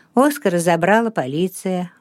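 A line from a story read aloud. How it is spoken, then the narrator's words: Tired reply. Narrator (Russian): устало ответил Расмус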